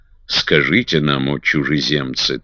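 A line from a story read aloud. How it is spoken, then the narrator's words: Solemn exclamation, old man. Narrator (Russian): торжественно воскликнул старик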